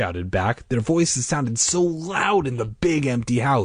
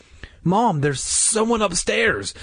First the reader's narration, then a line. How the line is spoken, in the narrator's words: I cried